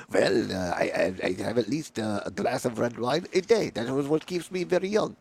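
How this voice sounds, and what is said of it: Poor imitation French accent. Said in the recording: “I'm a terrible French accent”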